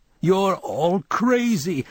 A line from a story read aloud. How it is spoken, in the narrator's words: I tried to yell, but it came out a moan